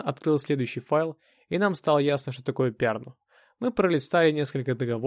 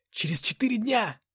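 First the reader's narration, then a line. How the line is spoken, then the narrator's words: Exclamation. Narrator (Russian): воскликнул я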